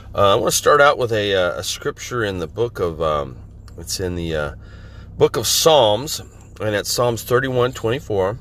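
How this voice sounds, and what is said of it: Voice a little off, sounds sick. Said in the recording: “my voice is a little off today... I'm just getting over a head cold, a little bit of chest cold, and so my voice is a little off”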